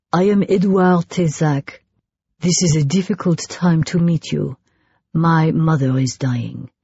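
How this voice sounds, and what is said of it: Strong French accent in English. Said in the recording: “He spoke in English, decent English, with a strong French accent.”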